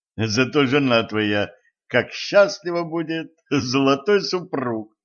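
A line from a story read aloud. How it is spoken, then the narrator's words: Laughing. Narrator (Russian): засмеялся Денис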